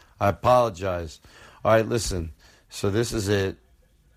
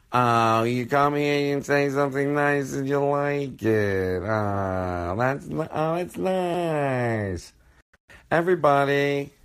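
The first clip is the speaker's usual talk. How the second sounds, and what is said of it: Impression of Bob's Burgers mom. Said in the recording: “I'm like the mom on Bob's Burger ... I'm not that good at that impersonation ... voices from shows”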